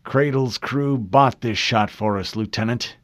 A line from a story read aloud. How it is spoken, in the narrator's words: growled